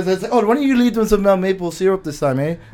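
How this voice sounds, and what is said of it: Odd put-on accent, sounds sick. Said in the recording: “I don't know what accent that was. It sounded like ... it was Hispanic. ... It sounded like I was sick. ... Sounded like Watto from Star Wars ... A little bit too much Benadryl ... That was a good accent”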